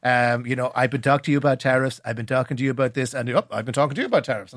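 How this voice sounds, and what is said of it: Donald Trump impression. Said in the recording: “Not a bad impression. ... How should Micheál handle the Donald”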